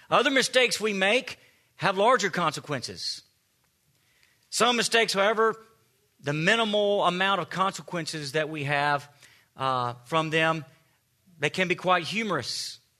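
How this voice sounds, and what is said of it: Southern American accent. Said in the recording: “having a southern accent ... just your voice is the icebreaker”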